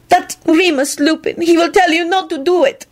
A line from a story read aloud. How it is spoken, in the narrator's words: Cosmina wailed